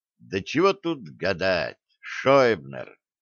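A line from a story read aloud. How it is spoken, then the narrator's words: Yawning drawl. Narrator (Russian): зевнув, протянул офицер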